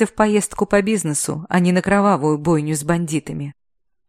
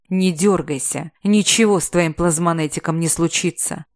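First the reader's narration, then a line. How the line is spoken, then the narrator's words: Growled. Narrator (Russian): рыкнул Рах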